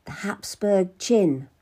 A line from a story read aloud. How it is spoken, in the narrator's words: whispered